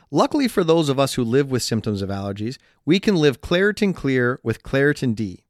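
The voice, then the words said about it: Stuffed-up, congested nasal voice. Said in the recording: “why does he sound that way? ... that's just your voice because you're so stuffed up ... the old allergy congested accent”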